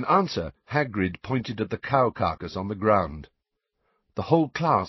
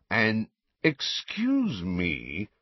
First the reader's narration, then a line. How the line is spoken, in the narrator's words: said Malfoy in a sneering voice